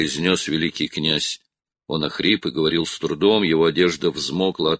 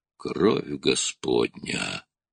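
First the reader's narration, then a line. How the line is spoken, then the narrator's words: Hoarse wheeze. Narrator (Russian): хрипел Струан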